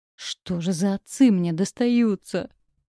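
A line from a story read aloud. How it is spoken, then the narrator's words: Moaning. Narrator (Russian): простонала Дарье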